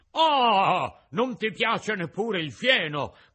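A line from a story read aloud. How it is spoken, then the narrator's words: Angry shout. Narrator (Italian): gridò il padrone imbizzito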